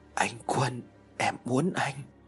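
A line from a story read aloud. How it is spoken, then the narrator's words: Soft moan. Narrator (Vietnamese): Cô liền rên lên khẽ khẽ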